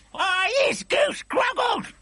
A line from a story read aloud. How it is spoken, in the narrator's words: howled the man-hugger